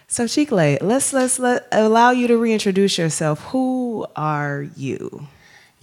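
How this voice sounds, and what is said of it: Put-on podcast host voice. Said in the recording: “I'm going to use my podcast voice.”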